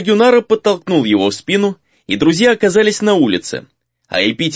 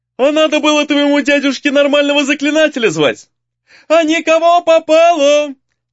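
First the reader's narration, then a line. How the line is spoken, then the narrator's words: Angry yelling. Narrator (Russian): заорал в ответ разозлившийся Гризли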